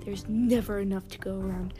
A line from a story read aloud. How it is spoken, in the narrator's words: she spat